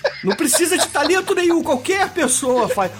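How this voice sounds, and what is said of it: Melting, dopey comic voice impression. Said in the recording (Portuguese): “derretendo a voz que nem um retardado mental ... Ele tá imitando a Dan Sandler ... qualquer um faz essa voz”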